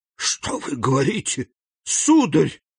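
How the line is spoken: Distressed exclamation. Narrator (Russian): воскликнула госпожа де Вильфор, ломая руки

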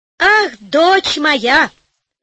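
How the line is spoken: Overjoyed shouting king. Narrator (Russian): закричал обрадованный король

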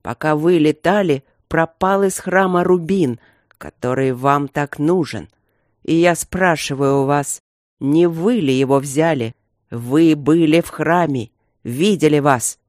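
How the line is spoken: Barely restrained growl. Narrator (Russian): рыкнул Красный Король, едва сдерживаясь

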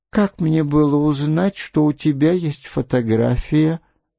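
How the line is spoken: Sigh. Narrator (Russian): вздохнула она

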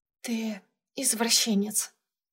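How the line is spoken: Whispered in ear. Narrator (Russian): прошептала я Юрьевскому на ухо

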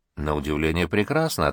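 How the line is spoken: Plain. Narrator (Russian): ответила Мария

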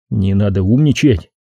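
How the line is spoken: Cold retort. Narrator (Russian): холодно возразил я

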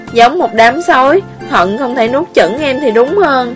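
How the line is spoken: Sighing. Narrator (Vietnamese): An Dĩ Phong thở dài một tiếng

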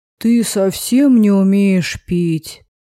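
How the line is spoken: Grumbling. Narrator (Russian): Его ворчание

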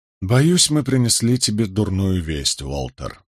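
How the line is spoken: Soft, gentle. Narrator (Russian): мягко произнес я

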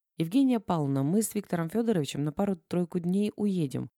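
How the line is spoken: Calm but strangely tinged. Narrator (Russian): Багрицкая говорила спокойно, но что-то было в ее голосе необычное

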